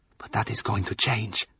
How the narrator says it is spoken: she whispered, to herself as much as me

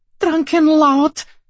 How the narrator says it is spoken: the gaudily dressed floozy exclaimed

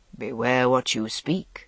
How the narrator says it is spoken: said the Merlin very softly

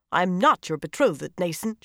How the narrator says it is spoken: she snapped, seething at having to say that aloud for everyone to hear

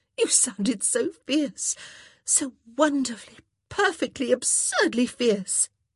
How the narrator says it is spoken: she gasped

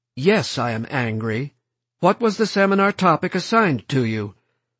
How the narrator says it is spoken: Walker became stiffly formal and polite

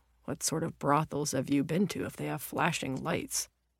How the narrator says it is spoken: He had muttered back

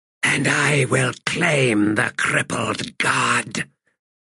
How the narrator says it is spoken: he hissed under his breath

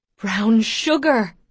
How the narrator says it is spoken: Ma exclaims

